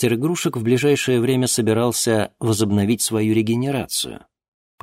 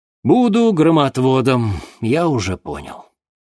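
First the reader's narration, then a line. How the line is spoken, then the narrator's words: Sighing. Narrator (Russian): вздохнул Денис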